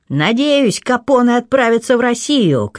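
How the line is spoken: Shout. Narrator (Russian): крикнул тот

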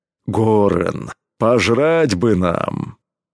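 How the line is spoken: Deep bass, hulking man. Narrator (Russian): пробасил громила Кром

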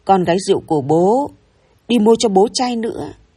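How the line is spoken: Drunken father's growl. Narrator (Vietnamese): bố gầm gừ

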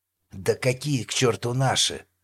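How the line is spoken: Growled. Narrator (Russian): рычал лейтенант

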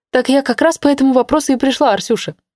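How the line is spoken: Exclaimed. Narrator (Russian): воскликнула Ленка

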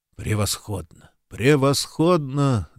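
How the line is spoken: Pleased mutter. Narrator (Russian): довольно пробормотал Куб

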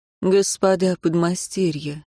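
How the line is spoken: Quiet, calm. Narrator (Russian): сказал он тихим спокойным голосом

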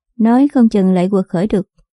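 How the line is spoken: Sighing. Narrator (Vietnamese): Đàm ma ma thở dài nói tiếp

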